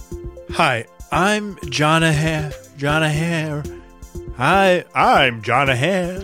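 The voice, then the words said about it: Imitates another person's voice. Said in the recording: “my Jonah Hamm impression has gotten a little rusty”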